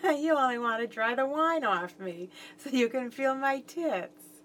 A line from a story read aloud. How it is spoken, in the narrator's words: I said laughingly